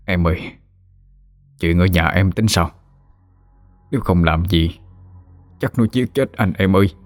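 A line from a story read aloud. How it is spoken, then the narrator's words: Soft question. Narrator (Vietnamese): ông khẽ hỏi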